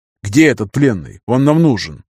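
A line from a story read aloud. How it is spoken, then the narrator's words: Interrupting exclamation. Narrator (Russian): Перебивая Терца, воскликнул я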